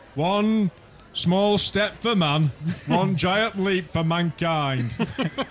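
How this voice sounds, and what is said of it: Sean Bean impression. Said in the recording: “Can imagine Sean Bean. ... That's a good impression”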